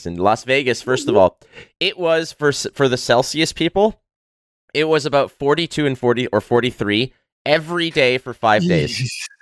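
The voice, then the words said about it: Strained voice. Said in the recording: “I don't know if you can hear it in my voice, but it's a little strained”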